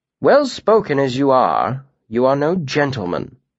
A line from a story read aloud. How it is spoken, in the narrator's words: Alvaron pointed out coolly